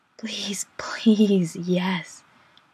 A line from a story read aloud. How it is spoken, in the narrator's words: Chris moans